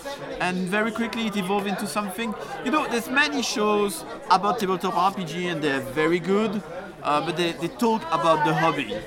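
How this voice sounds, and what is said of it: French-speaking Belgian accent. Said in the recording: “maybe you can tell from the title and my accent, my first language is French. I was born in Belgium.”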